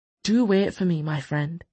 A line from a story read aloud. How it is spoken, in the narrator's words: he murmured